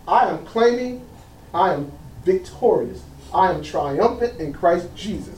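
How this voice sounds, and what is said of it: Shouting preacher. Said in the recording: “That's why I'm shouting.”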